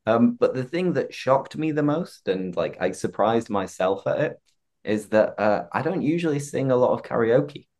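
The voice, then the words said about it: Hoarse, croaky voice. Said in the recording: “I still don't have a voice. I'm very hoarse, very croaky.”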